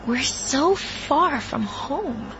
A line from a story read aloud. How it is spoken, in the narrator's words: the girl said, her voice going high